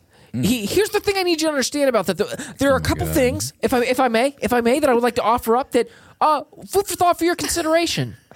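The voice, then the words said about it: Imitates another person's voice. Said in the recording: “an unfiltered impersonation”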